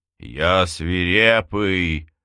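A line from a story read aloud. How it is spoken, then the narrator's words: Howling. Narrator (Russian): взвыл он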